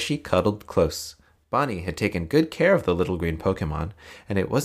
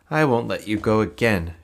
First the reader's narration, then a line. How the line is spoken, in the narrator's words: she said